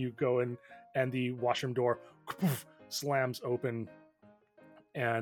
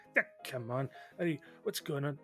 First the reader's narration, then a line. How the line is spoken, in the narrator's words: just kind of muttering